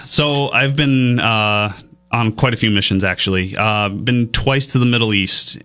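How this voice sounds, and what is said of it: Great radio voice. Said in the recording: “got a great radio voice. ... Great radio voice. He is great on the radio.”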